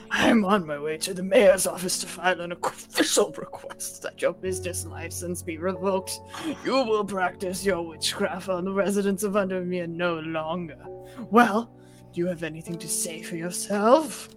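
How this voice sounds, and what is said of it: Character voice for Isidore Burbage. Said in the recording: “Isidore Burbage. Do you want to do him? I mean, do his voice.”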